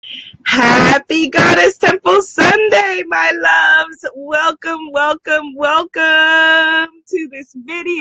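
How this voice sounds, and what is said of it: Slightly hoarse, partly lost voice. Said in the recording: “As you can hear, I have lost my voice a little bit. ... I've lost my voice a little bit”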